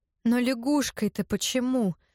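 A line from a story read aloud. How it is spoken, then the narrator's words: Dejected, repeating. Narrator (Russian): упавшим голосом твердила Горе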